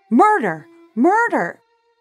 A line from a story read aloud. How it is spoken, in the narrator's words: Shocked out of her silence, Jacquette screamed from her second-story window